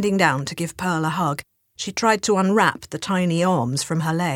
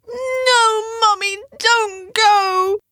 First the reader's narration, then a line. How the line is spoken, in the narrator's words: she screamed